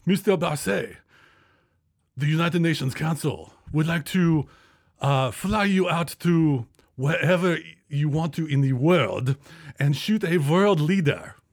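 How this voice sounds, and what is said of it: Put-on vague foreign accent. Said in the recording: “I have no idea what accent this is. I just wanted to make it foreign.”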